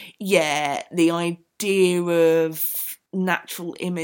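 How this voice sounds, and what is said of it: Usual voice. Nothing is said of it.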